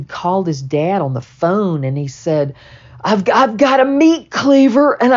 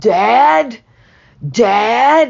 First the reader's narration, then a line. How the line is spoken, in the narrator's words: screaming